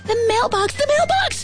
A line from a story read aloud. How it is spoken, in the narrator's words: screamed Billy